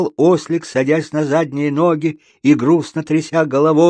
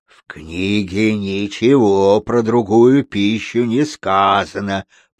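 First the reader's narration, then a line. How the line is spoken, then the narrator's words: Bear's growl. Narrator (Russian): прорычал медведь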